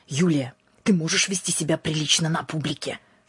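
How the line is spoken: Hissing. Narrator (Russian): шипела

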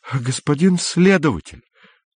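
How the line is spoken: Desperate voice. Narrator (Russian): сказал он отчаянным голосом

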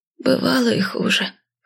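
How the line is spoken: Hoarse. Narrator (Russian): хриплым голосом ответила она мне

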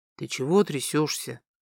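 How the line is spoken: Barely audible question. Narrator (Russian): спросил чуть слышно Тим

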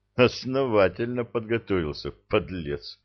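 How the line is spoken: Grim chuckle. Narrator (Russian): мрачно усмехнулся

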